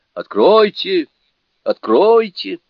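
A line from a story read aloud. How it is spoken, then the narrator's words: Loud shout. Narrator (Russian): громко крикнул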